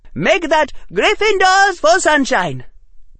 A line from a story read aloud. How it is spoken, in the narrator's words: Parvati said cheerfully